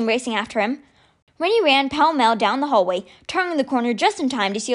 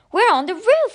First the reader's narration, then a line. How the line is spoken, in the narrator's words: Ty exclaimed